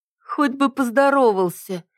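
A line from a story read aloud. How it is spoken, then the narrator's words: Lazy drawl. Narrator (Russian): лениво протянула Сальма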